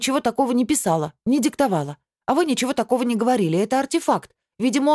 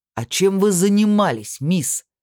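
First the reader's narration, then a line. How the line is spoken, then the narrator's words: Booming. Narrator (Russian): прогремел он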